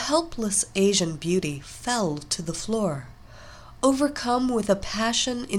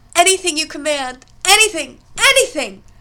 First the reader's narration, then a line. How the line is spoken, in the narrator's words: shouted as an orgasm racked her body